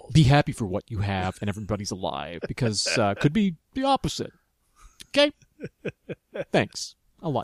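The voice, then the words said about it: Lecturing tone, imitates another person's voice. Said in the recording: “Now I'm channeling Bill O'Reilly... The tone of my voice... My general lecturing... He's like, if Bill O'Reilly and John Travolta from Saturday Night Fever had a child”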